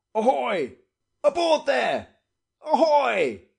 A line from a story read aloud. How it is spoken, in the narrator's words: he shouted time after time